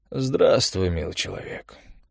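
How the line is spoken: Hoarse, dreary voice. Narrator (Russian): сказали голосом хриплым и унылым

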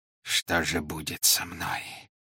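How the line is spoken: Growling. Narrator (Russian): зарычал он

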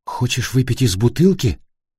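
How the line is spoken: Plain. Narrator (Russian): спросила Йенни

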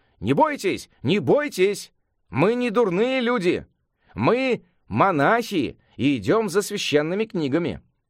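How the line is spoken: Alarmed shout. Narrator (Russian): Сюаньцзан не на шутку встревожился, закричал

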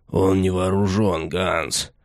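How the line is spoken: Hoarse rasp. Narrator (Russian): прохрипел один из них

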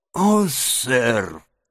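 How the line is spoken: Strained, tearful. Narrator (Russian): выдавил мистер Джаб, заливая слезами

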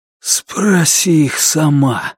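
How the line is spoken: Breathed out. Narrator (Russian): выдохнул он

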